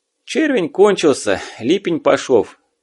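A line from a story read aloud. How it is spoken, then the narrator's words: Sigh. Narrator (Russian): вздохнул Ивась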